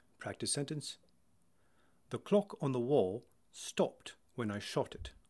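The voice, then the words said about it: British RP accent. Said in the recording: “in RP, it is a tight round circle and a very short popping sound”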